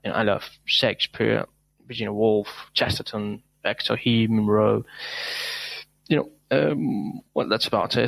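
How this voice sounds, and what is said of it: Non-native speaker, very good pronunciation. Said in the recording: “What a fantastic accent ... great pronunciation ... wonderful pronunciation”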